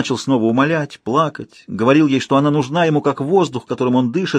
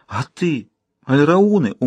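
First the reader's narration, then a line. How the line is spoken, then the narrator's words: Pleading question. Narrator (Russian): умоляющим голосом спросил он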